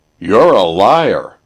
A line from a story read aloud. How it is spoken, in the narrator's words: roared the champion